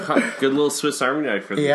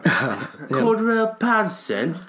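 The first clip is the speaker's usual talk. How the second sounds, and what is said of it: Put-on British accent. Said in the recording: “say that one with a British accent.”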